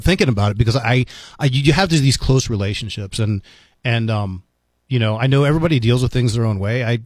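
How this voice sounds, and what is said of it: Slightly choked-up, emotional voice. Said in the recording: “I'm getting a little choked up”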